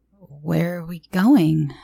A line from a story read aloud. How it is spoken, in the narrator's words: asked, trying my hardest to keep my voice from quivering